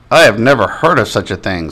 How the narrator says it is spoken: said the principal

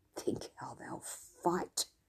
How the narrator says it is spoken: he muttered

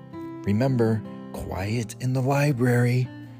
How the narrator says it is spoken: murmured Mouse

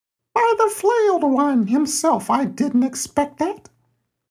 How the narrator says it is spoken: the minion croaked

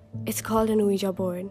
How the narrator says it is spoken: he said

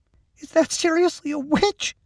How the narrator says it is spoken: Mack asked, his voice a squeak

